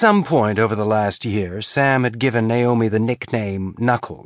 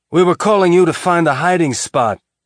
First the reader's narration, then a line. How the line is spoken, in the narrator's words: Amos yelled out